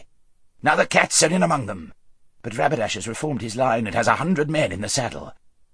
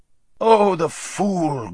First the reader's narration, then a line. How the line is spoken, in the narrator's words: groaned the hermit